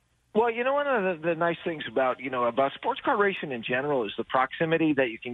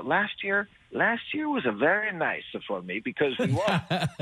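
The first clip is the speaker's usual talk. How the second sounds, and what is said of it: Poor put-on Italian accent. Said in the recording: “my crappy Italian accent”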